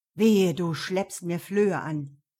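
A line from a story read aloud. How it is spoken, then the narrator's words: Growling. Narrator (German): knurrte er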